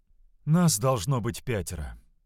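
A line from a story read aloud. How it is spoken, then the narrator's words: Heavy sigh. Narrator (Russian): тяжело вздохнула чаровница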